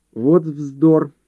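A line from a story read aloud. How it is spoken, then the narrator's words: Forced out impatiently. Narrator (Russian): выдавила она, сгорая от желания, чтобы он приступал к делу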